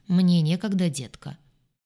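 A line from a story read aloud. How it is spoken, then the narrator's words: Monotone bass while chewing gum. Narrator (Russian): Он неизменно жевал жвачку, монотонно басил в ответ на любой вопрос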